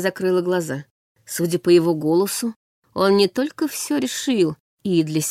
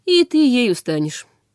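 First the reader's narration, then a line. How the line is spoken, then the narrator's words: Calm. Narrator (Russian): произнес Нортон Вестегард спокойно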